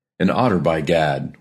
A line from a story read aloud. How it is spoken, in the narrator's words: exclaimed in the same breath, laughing